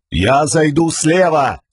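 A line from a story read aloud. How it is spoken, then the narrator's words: Muffled shout through helmet. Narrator (Russian): крикнул юноша, и голос его прозвучал глухо из-за шлема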